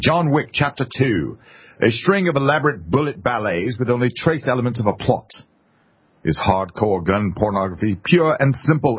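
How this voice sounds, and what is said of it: Put-on British accent. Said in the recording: “I'm going to give this to you in a British accent”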